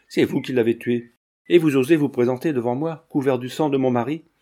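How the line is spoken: Exclamation. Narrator (French): s'écria la marquise

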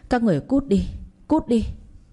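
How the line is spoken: Loud shouting while struggling. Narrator (Vietnamese): vừa vùng vẫy thoát khỏi anh em nhà kia vừa gào lớn

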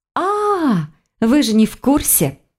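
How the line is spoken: Exclaimed. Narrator (Russian): воскликнула она

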